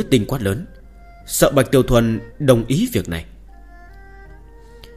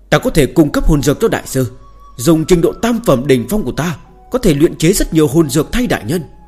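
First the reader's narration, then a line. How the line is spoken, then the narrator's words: Sudden loud shout. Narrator (Vietnamese): Chu Nhất Tinh lập tức hét lớn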